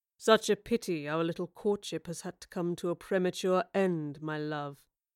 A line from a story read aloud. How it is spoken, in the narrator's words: said gently, but with no affection